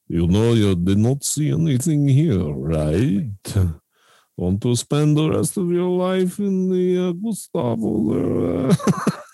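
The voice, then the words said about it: Poor fake Russian accent. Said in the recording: “worst Russian impression”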